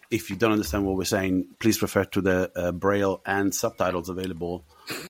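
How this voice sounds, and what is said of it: Very strong mixed Italian-Australian accent. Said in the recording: “I have an accent. So at some point, a very strong accent. ... it's a mess of an accent. I'm Italian. I was born in South America. I spent time in Australia, a long time in Australia, over a decade, and then moved to the UK. So my accent is a mess.”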